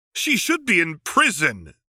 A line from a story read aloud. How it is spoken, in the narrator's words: said the shouting woman